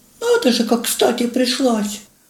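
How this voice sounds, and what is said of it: Thin, whiny mocking voice. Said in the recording (Russian): “передразнила себя противным комариным голоском”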